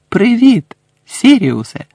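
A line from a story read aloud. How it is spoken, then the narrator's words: Exclaiming. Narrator (Ukrainian): вигукнув Гаррі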